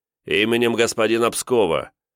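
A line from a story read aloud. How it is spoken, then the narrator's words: Booming shout. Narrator (Russian): зычно прокричал тиун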